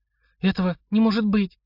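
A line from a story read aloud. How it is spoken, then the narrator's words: Strained, barely forced out. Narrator (Russian): еле выдавила Марина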